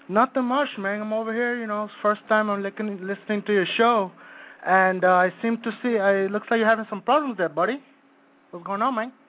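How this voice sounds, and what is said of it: Slight accent, like Carlito's Way. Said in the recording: “I know I speak with a little accent ... Sounds like Carlito's way.”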